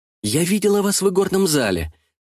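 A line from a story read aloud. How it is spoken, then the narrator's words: Hurried. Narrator (Russian): торопливо продолжала я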